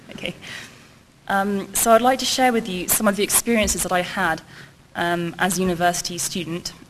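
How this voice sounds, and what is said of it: British English accent. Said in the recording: “I'm from the UK, Cambridge. You'd probably tell from my accent.”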